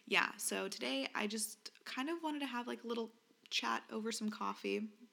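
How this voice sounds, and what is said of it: Groggy, rough morning voice. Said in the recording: “Sorry if my voice is also gross. ... I'm a little groggy.”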